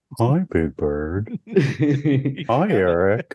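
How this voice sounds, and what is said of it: Slow, drawn-out puppet character voice. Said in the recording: “I was going to do a snuffleupagus voice ... It's kind of like a slow... That's it.”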